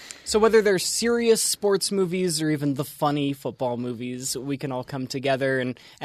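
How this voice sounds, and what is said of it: Usual voice. Nothing is said of it.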